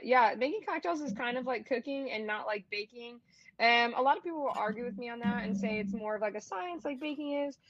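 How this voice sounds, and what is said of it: Michigan accent. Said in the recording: “with my Michigan accent, everyone always makes fun of me for saying balanced.”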